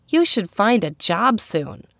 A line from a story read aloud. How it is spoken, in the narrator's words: pleaded with her husband